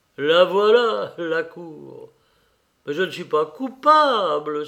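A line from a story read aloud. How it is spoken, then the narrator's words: Angry exclamation. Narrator (French): s'écria-t-il avec colère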